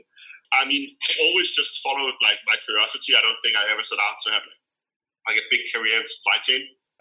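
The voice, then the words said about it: Danish accent. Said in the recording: “I'm Danish ... You never get rid of the accent.”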